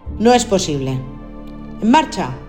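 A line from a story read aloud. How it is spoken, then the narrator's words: Firm commanding voice. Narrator (Spanish): ordenó con voz firme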